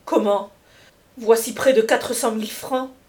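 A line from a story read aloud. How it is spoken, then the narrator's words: Exclaiming. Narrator (French): s'écria Esther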